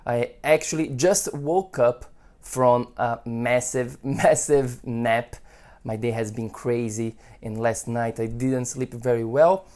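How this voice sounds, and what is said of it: Voice sounds a little off. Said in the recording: “my voice is a little off today”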